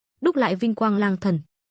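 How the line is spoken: Hoarse, exhausted shout. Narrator (Vietnamese): dùng hết sức lực cuối cùng, khàn giọng quát

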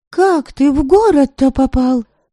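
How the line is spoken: Exclamation. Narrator (Russian): воскликнула Предслава

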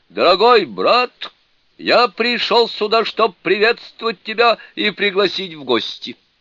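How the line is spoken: Loud shout. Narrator (Russian): Дракон-крокодил громко крикнул

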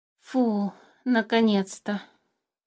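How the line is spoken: Relieved exhale. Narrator (Russian): С облегчением выдохнул Мимикр

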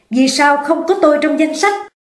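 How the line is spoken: Angry loud shout. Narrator (Vietnamese): giận dữ hét to lên

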